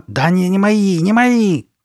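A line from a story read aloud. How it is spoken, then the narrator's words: Shouting. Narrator (Russian): кричала Карли Бет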